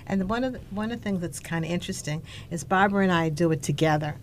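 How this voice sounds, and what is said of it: Boston accent. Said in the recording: “Love your Boston accent.”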